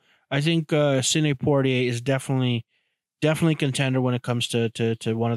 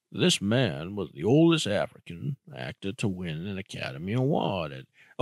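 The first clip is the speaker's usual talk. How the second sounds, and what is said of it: Poor Morgan Freeman impression. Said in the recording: “try and do an impression. I'm going to do an impression ... I can't do it. I'm horrible. I'm talking about Morgan Freeman”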